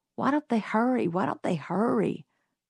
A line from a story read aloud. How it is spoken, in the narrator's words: muttered Jim